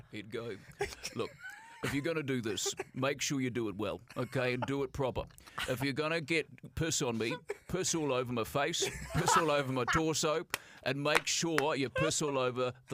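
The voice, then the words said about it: Imitates another person's voice. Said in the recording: “you do a killer Mike Hosking impression”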